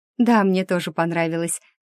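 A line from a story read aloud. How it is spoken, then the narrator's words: Laughing. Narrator (Russian): хохотнула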